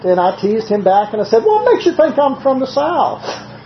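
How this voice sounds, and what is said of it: Southern American accent. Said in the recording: “What part of the South are you from? ... I just can't seem to shake my southern accent completely”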